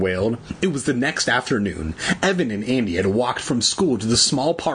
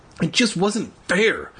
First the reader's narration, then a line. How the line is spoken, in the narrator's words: he grumbled